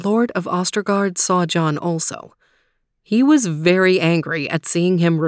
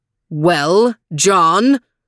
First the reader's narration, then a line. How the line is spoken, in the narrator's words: bellowed John's master